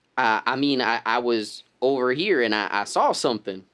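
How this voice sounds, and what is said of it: Put-on rural bumpkin accent. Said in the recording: “Accent!”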